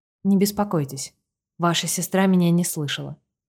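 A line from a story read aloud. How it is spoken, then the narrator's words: Soft breezy whisper. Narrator (Russian): прошептал мне в ухо Витер, щекотно и приятно, будто летний ветерок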